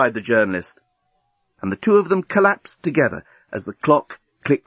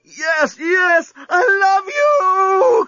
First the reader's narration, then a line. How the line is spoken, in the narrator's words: cried Lucy